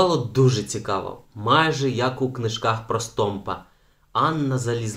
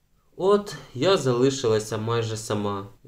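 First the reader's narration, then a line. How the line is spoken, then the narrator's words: Sighing. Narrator (Ukrainian): зітхнула Беата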